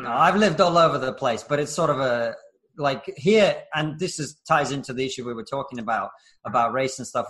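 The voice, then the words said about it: Middle-class English accent. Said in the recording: “I'm getting a hint of northerner in ... doesn't sound like a proper London accent either ... my accent is sort of middle class.”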